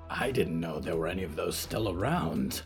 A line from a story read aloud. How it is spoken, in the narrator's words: Barb hissed